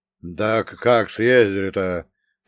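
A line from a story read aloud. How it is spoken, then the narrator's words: Old man's booming drone. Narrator (Russian): прогудел дед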